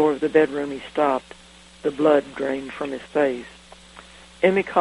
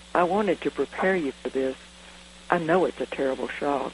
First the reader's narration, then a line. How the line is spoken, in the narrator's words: She murmured